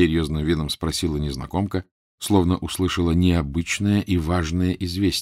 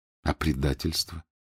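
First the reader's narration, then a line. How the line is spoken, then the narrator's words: Quiet. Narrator (Russian): тихо сказал он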